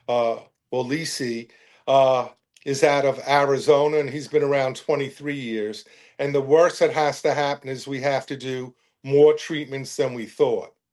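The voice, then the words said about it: Bronx accent. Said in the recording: “I love the Bronx accent that delivers it”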